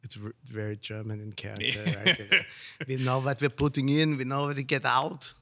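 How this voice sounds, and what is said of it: Put-on German colonel accent. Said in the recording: “That's his German accent. ... that's a German colonel.”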